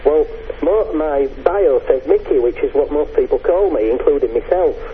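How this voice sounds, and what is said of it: English accent. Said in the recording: “guy with an English accent”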